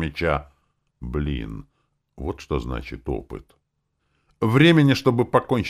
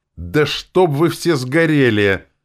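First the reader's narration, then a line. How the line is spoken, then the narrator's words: Loud angry outburst. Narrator (Russian): громко в сердцах бросил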